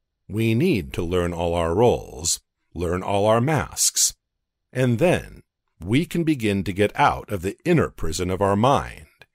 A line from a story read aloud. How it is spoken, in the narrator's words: he replied in an expressive, sonorous voice